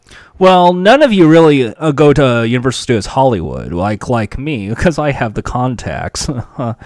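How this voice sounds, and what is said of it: Snobbish Hollywood accent. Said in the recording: “Can you put on a snobbish accent? ... the Hollywood”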